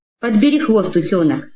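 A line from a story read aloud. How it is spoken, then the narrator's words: Forced calm. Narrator (Russian): говорю, изо всех сил стараясь, чтобы голос прозвучал спокойно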